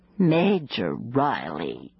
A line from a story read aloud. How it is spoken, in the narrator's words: she purred